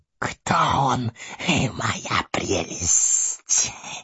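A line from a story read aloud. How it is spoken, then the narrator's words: Hissed. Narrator (Russian): прошипел Горлум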